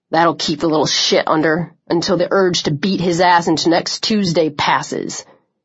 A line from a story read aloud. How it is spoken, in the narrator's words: he growled